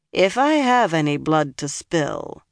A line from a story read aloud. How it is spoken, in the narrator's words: Nynaeve said dryly